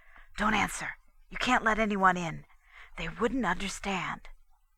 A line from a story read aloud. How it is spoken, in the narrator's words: Johnson whispered tensely